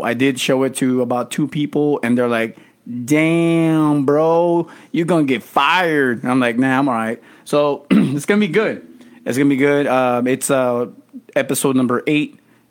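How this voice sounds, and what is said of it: Strong accent, hard to follow. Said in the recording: “I know some of you guys have trouble listening to my accent.”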